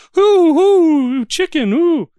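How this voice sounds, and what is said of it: Imitates a cartoon mayor's voice. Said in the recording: “And so the mayor is just always like ... I think I nailed that impression, by the way.”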